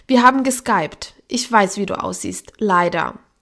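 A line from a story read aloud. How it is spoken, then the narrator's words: Theatrical sigh. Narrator (German): seufzte theatralisch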